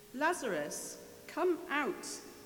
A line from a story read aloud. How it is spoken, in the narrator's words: he called out in a loud voice